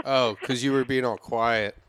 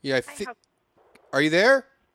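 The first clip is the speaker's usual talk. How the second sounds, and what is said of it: Yelling. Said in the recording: “why are you yelling?”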